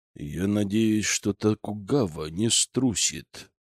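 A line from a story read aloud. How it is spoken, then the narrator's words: Through gritted teeth. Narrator (Russian): процедил Державин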